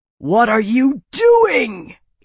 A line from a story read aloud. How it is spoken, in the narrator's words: Ian roared